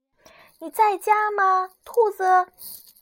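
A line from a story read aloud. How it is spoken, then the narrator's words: Called from outside door. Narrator (Chinese): 有人在门外喊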